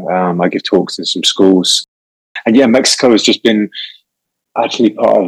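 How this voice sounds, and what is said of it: English accent. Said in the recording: “England, for people who haven't recognized the accent, ... I'm from the UK.”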